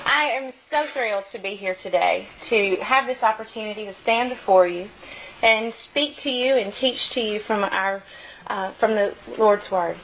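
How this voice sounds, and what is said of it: Slow Southern American accent. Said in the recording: “my southern dialect ... In the South, we talk slow”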